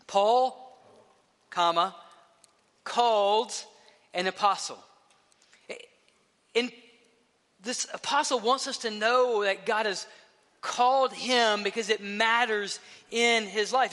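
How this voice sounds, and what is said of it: Speaks with a noticeable accent. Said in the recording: “with my accent, saying Paul called is not easy”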